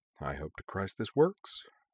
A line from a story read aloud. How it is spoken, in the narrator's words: Griffin muttered